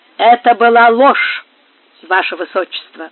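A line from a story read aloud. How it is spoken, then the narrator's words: Firm, almost stern. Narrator (Russian): твердо и почти строго отвечал Антонио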